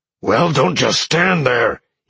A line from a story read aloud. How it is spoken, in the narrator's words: he growled at Roxy